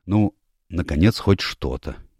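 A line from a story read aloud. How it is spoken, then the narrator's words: Quiet but excited. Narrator (Russian): негромко, но взволнованно сказал лорд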